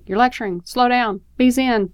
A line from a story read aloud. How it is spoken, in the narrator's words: You can almost hear his brain shouting